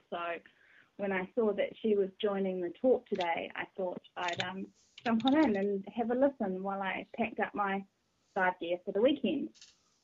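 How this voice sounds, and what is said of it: New Zealand accent. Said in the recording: “a lovely New Zealand accent”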